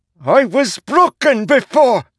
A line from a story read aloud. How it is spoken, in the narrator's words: Zeth shrieked